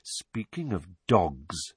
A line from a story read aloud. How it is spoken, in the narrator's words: said Snape softly